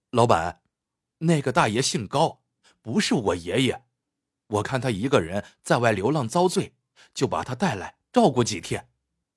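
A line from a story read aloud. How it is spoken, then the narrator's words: Smiling. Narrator (Chinese): 郑小亮笑着说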